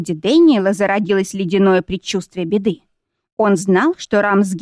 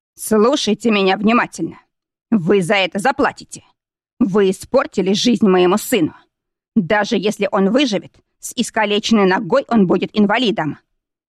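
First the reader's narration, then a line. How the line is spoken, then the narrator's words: Spiteful, through clenched teeth. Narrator (Russian): маркиз злобно процедил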